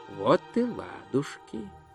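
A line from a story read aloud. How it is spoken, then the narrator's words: Quiet. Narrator (Russian): негромко сказал Гончия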